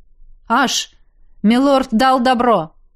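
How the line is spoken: Distant shout. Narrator (Russian): крикнул от ворот вернувшийся Надир

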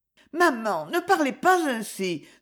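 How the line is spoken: Young woman pleading. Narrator (French): supplia la jeune fille

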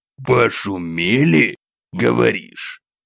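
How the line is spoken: Restrained irritation. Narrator (Russian): Сдерживая раздражение, бросил монарх

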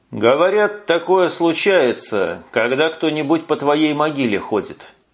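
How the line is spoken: Plain. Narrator (Russian): сказал подполковник Кабанов

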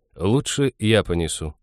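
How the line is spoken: Calm. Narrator (Russian): спокойно сказал он

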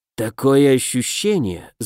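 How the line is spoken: Thoughtful mutter. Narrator (Russian): задумчиво пробормотал Денебери

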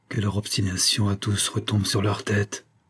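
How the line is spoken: Murmur. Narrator (French): murmura-t-elle

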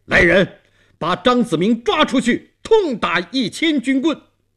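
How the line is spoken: Stern shout. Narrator (Chinese): 东王厉声喊

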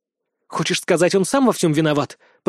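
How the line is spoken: Hiss. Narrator (Russian): прошипела Юлия

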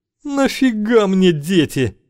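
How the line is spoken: Rasped. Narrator (Russian): прохрипел Юрок

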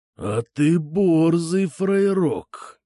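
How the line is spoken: Drawn-out drawl. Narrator (Russian): наконец протянул Ширяй

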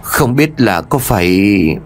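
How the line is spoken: Muttering. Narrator (Vietnamese): bà Ba liền lẩm bẩm

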